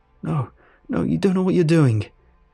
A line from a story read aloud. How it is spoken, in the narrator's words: I cried, fighting against the men